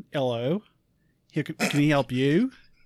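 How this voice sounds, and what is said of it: Imperfect put-on Australian accent. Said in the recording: “I spent a month perfecting an Australian accent, and it's still not even good ... Better ... It's a decent accent”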